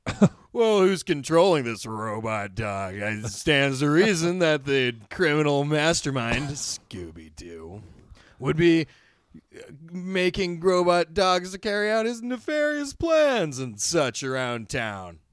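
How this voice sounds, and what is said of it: Sheriff Stone character impression. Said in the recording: “my Sheriff Stone impression ... I'm pretty close ... It's charming right now”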